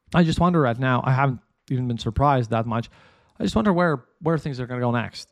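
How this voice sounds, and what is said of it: Strained, unwell-sounding voice. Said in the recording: “sorry for my weird voice. I'm not very not very healthy at this point”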